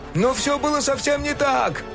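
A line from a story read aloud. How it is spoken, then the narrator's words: Shouted. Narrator (Russian): крикнул ему Док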